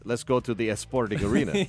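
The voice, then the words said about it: Bad put-on Spanish accent. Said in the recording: “It's like if you have a bad Spanish accent.”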